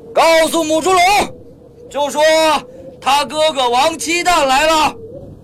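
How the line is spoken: Shouting. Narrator (Chinese): 双手插着腰，对着警卫大喊起来

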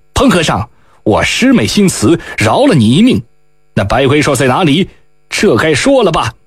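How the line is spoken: Stern, harsh. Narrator (Chinese): 厉声道

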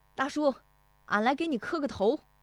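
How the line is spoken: Calling out. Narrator (Chinese): 石德义进门就喊

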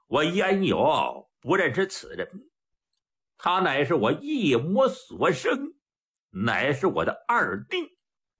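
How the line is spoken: Laughing. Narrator (Chinese): 丁银龙当时笑了

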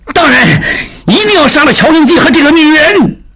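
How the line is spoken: Shouting. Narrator (Chinese): 孟柏大叫

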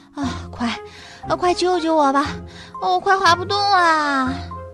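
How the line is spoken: Out of breath. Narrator (Chinese): 它气喘吁吁地说

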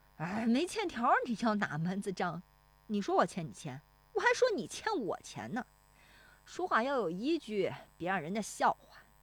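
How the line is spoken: Toothy grin. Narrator (Chinese): 冯谷子呲牙一笑

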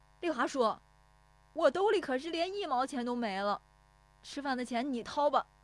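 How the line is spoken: Shouting while chasing. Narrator (Chinese): 石有福撵着喊

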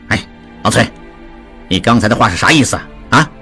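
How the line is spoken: Stern question. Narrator (Chinese): 达庆厉声问

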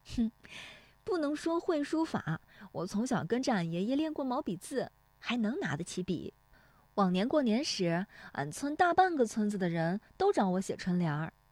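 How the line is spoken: Laughing. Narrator (Chinese): 乔红梅笑说

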